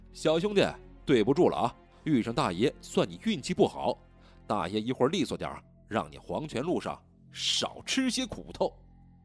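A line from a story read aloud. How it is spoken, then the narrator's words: Loud. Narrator (Chinese): 对面一人大声道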